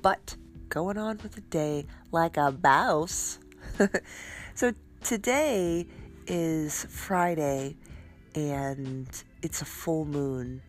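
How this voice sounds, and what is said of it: Congested, stuffed-up voice. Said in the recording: “I don't know if you can hear it in my voice, but I'm a little stuffed up this morning.”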